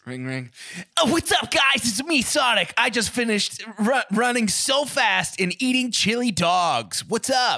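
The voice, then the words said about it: Sonic the Hedgehog impression. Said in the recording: “going to do a Sonic voice?”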